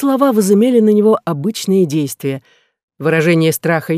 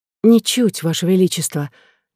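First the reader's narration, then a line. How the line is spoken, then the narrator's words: Quiet reply. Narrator (Russian): так же тихо ответила она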